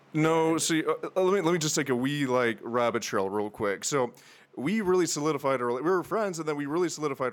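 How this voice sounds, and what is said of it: Mixed Tennessee and Northern Irish accent. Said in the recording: “Where's that accent? ... between Tennessee and, and Irish. Northern Ireland, yeah. Horrible combination of the two.”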